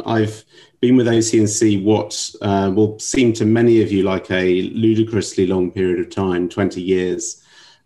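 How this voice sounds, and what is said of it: London English accent. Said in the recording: “as you can probably tell from my accent, originally from London”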